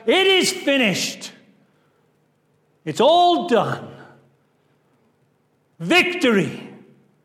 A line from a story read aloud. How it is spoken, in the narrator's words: he is on the cross dying, he is able to shout out